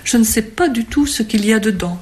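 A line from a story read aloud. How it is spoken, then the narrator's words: Detached, dreamy murmur. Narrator (French): murmura Gabriel, du ton détaché et rêveur qu'il prenait pour parler aux femmes convoitées et jamais possédées encore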